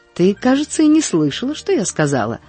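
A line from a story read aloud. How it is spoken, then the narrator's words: Offended. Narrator (Russian): заметила она обиженно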